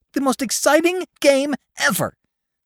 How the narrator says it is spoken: gasped Mink, pink-faced

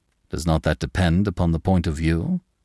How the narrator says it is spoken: quoth André Louis, but his tone was studiously conciliatory

